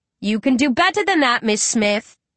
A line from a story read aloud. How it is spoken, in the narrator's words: she called out